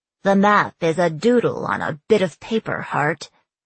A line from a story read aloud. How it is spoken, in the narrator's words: Millie said with a sneer